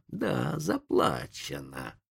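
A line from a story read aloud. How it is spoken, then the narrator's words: Hissing. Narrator (Russian): прошипел индеец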